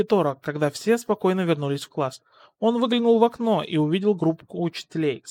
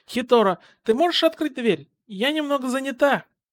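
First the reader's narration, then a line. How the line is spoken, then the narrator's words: Mother's shouted call. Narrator (Russian): мать крикнула ему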